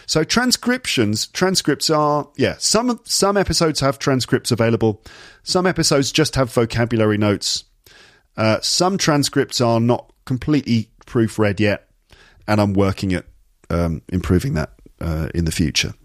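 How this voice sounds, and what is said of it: Standard British received pronunciation accent. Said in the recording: “I speak with standard British received pronunciation, more or less, which is basically the sort of standard version of English. It doesn't have a specific region.”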